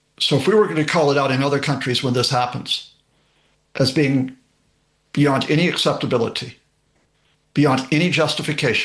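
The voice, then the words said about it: American accent. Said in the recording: “You can tell from the accent that that I was born and raised there.”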